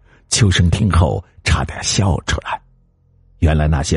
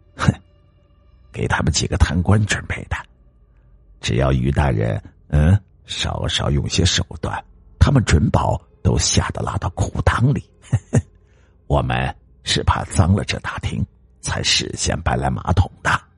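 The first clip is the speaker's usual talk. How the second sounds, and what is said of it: Quiet, hushed speech. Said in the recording (Chinese): “小声的说”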